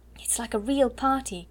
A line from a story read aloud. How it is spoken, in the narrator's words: cried Ermengarde